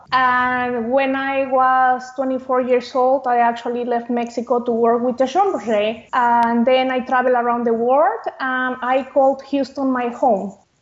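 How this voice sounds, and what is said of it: Mexican accent. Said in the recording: “As you can notice by my accent, I am 100% tequila, meaning that I was raised and born in Mexico.”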